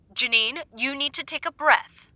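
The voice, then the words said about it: Firm teacher voice. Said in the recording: “That was my firm teacher voice.”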